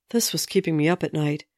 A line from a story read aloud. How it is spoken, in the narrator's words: he sighed